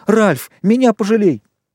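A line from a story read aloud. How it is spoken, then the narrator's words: Squealed. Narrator (Russian): Хрюша взвизгнул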